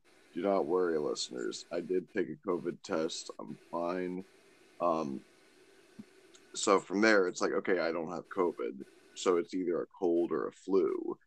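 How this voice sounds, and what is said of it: Sick, flu-affected voice. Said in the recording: “if you can't tell by my voice, I've got the flu”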